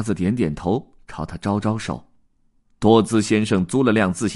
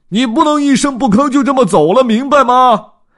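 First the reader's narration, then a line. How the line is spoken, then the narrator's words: Grinning shout. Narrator (Chinese): 多兹咧嘴一笑，但还是冲他嚷道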